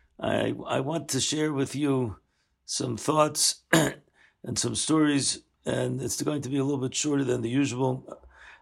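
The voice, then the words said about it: Sick-sounding voice. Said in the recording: “as you can hear in my voice. I'm a little bit under the weather”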